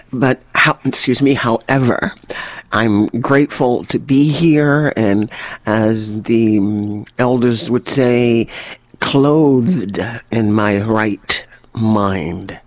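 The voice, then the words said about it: Congested, affected voice. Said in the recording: “excuse my voice. Allergies”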